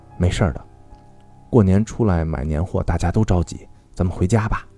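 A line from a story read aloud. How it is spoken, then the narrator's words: Gentle mother. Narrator (Chinese): 妈妈温柔地说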